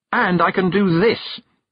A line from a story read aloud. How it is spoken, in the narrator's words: Tiffany shouted